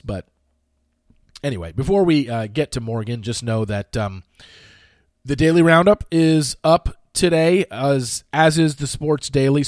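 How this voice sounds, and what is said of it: Congested, slightly strained voice. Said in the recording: “Voice kind of going a little bit. It's mostly just congestion now. ... you can hear it in my voice. It's going a little bit”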